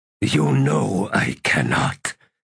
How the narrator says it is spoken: Tul said in a rasp

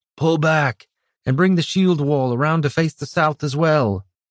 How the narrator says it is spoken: Brannis shouted

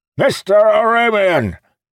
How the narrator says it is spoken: practically shouted in his ear

